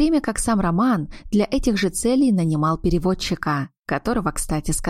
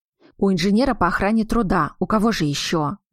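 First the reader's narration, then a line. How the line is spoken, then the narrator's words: Muttered. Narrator (Russian): буркнул он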